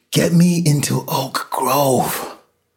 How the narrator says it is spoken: Lois gasped

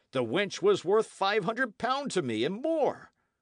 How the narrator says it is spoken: cried Sir Daniel

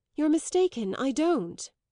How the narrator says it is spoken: The bitterness touched her, and she cried out

